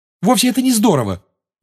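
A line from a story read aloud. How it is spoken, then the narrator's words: Heated exclamation. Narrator (Russian): горячо воскликнула Гермиона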